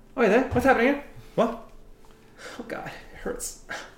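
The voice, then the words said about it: Character voice with accent. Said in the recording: “I have to redo Bet's fucking accent.”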